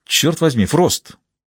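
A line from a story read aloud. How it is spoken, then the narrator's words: Woman exclaiming. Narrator (Russian): воскликнула Джейн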